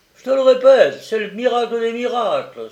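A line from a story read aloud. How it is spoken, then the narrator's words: Excited exclamation. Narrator (French): s'exclama Kupfer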